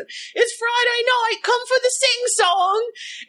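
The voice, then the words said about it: Put-on 1940s British accent. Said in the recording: “1940s in Britain ... I'm damn doing the accent.”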